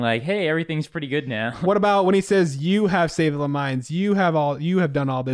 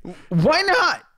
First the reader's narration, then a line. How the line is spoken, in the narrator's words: Joe exclaimed